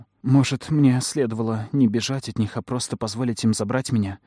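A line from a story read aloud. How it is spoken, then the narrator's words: Heavy sigh. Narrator (Russian): сказала я, тяжело вздохнув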